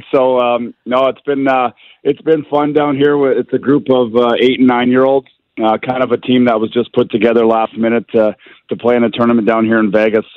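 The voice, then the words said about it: Strained, worn-out voice. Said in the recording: “I need to apologize for the way my voice sounds, because I've been yelling and screaming for about a week straight”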